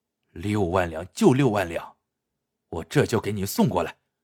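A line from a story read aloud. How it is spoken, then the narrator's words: Grudging, through gritted teeth. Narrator (Chinese): 黄明轩咬咬牙说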